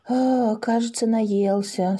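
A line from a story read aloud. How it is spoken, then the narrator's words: Relieved sigh. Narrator (Russian): с облегчением вздохнули Паша и Маша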